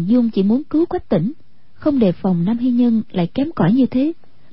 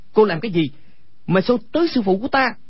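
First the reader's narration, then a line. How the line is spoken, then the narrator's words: Angry shout. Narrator (Vietnamese): Quách Tĩnh tức giận quát lên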